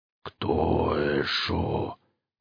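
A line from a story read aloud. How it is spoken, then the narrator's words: Unhurried mumble. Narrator (Russian): Неторопливое бормотание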